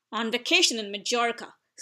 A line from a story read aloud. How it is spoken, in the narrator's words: snapped Aunt Petunia